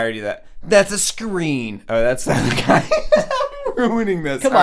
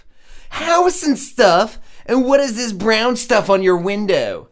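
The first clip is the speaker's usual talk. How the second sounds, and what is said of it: Put-on Italian New York accent. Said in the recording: “Let me see if I can do an Italian accent ... This is my Italian accent. It comes very New York Jewy”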